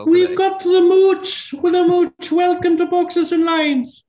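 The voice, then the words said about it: Very poor put-on Irish accent. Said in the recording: “On a scale of 1 to 10 as an Irish brogue, that was like a minus 17. ... he sounds more like Mrs. Doubtfire”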